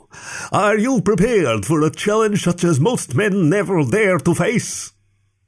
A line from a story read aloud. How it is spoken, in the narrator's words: Jeremy intoned